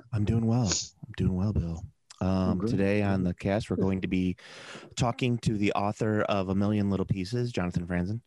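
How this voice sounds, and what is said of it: NPR radio host voice. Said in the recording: “that's my NPR voice”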